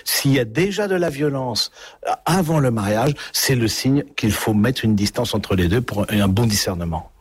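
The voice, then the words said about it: Southwestern French accent. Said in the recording (French): “On entend bien aussi votre accent du sud-ouest et vous avez un, peu gardé aussi cet accent”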